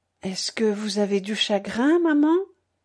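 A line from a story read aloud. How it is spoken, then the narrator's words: Timid hesitant question. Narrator (French): Il demanda enfin d'une voix timide, hésitante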